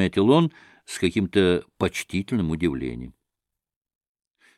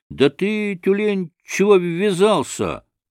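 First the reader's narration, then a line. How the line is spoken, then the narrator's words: Angry shout. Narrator (Russian): закричал на него первый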